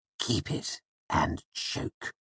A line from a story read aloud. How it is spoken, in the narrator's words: he hissed at me in a low voice